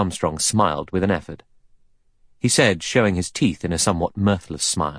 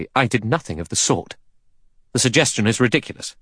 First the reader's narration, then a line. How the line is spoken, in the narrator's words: Armstrong said sharply